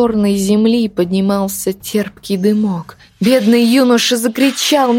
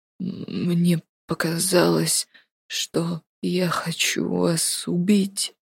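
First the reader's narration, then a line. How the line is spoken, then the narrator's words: Quiet whisper. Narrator (Russian): тихо прошептал Артур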